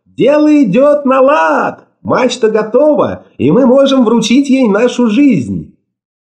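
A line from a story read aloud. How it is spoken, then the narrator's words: Joyful shout. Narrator (Russian): закричала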